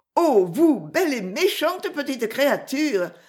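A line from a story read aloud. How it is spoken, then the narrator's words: Exclaimed. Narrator (French): s'écria Miss Mathilda tout en se jouant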